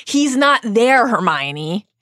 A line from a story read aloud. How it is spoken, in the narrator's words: Harry shouts